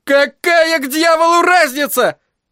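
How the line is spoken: Shrieked. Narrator (Russian): взвизгнул Джеки

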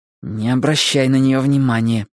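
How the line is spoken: Hissed through teeth. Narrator (Russian): сквозь зубы прошипела Гарри сестре

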